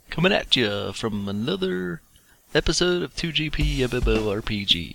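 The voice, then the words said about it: Radio DJ announcer voice. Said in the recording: “That was my radio announcer, radio DJ voice.”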